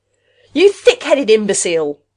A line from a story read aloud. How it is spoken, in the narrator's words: Rath shouted